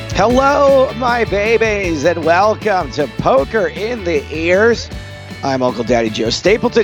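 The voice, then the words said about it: Hoarse, rough voice. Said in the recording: “You sound a little hoarse, ... You're sounding a little rough.”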